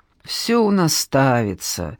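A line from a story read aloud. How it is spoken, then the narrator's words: Tired director speaking. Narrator (Russian): устало сказала директор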